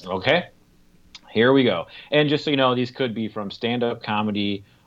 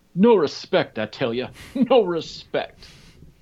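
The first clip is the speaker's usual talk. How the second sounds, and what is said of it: Poor impression of a famous comedian. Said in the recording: “I'm going to poorly impersonate them ... 10 catchphrases from famous comedians”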